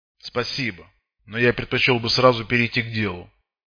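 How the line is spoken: Sharp voice. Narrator (Russian): ответил тот резким голосом

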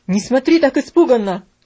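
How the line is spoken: Exclamation. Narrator (Russian): воскликнул он

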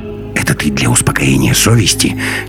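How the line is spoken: Quiet hiss. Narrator (Russian): тихо прошипел Носов

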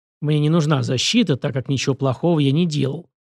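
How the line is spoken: Grumbling. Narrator (Russian): проворчал ученый

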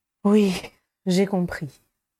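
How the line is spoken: Sighing. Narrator (French): soupira Harry

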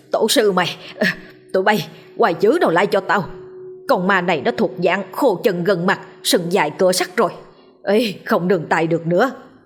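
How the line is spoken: Old man's hissing through teeth. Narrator (Vietnamese): Lão nghiến răng rít lên

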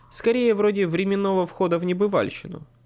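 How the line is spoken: Plain. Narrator (Russian): сказал я

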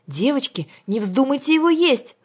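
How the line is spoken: Angel shouting. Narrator (Russian): закричал ангел Юлиус

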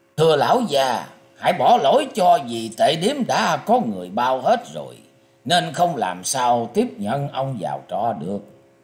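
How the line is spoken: Smiling, polite. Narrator (Vietnamese): tên tiểu nhị mỉm cười nói

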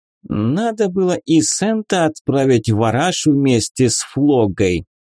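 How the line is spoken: Shrill scolding falsetto. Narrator (Russian): выговаривала она мужу высоким, срывающимся на фальцет противным голосом

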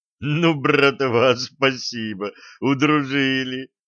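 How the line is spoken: Sobbing through laughter. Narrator (Russian): прорыдал Блад сквозь смех

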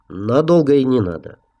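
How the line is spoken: Calm. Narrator (Russian): спокойно ответил новый руководитель производственной службы

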